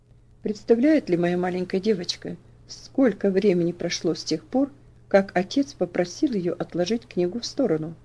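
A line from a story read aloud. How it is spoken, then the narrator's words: Gentle, slightly reproachful question. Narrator (Russian): спросил он ласково, но с оттенком выговора в голосе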